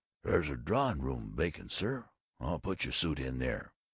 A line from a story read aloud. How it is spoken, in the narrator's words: the porter came to his berth and whispered